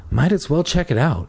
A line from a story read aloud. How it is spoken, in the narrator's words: Terry murmured